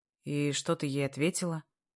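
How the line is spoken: Calm. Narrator (Russian): Игнат говорит спокойно

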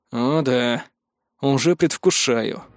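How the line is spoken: Grumbling. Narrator (Russian): проворчал я

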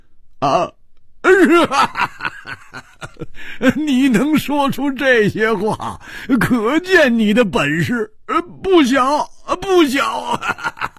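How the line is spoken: Loud laughter. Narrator (Chinese): 胡铁花大笑

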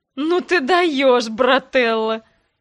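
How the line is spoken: Forced out through laughter. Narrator (Russian): Выдавил сквозь смех

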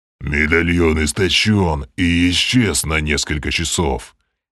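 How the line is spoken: Growling werewolf voice. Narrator (Russian): рычащим голосом пояснил Грим, продолжая трансформацию в чудовищного оборотня

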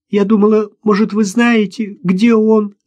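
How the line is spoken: Whimpering. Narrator (Russian): захныкала Катя

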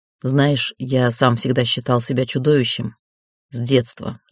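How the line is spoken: Plain. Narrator (Russian): сказал

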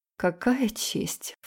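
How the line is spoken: Scornful snort. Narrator (Russian): фыркнула я

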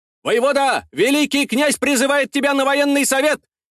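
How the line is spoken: Shouted announcement. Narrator (Russian): выкрикнул вестовой

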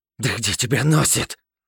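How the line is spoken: Hissing. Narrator (Russian): Прошипел я

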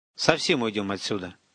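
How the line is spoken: Calm explanation. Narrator (Russian): поясняю я спокойно

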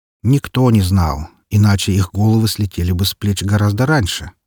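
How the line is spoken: Philosophical tone. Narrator (Russian): заметил философским тоном

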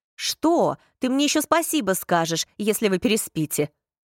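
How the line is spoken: Snapping retort. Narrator (Russian): огрызнулась Астрид

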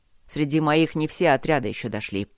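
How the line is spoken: Growling. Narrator (Russian): сказал он рычаще

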